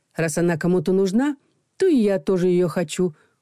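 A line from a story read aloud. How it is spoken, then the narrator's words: Snorting. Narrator (Russian): фыркнула Людмила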